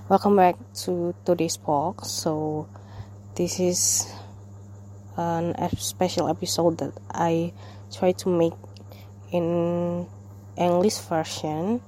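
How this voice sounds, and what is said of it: Non-native accent, mouth barely opening. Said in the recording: “I cannot even like open my mouth as much as comfortable ... if you cannot even understand my accent”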